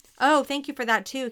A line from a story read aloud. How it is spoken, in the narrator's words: Kevin snapped